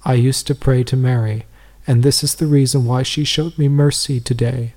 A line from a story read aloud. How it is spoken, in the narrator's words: said in a broken voice